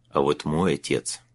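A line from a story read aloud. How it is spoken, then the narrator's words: Mutter. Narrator (Russian): пробормотал он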